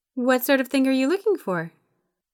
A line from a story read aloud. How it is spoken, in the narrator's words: Her voice was chipper, a little too loud for Yuri's still sleep-deprived ears